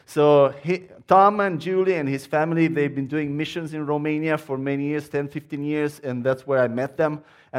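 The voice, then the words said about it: Romanian accent. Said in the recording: “my accent is Romanian”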